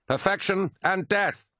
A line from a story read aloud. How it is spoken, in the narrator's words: cried Lucius, running through the white-hot silver needles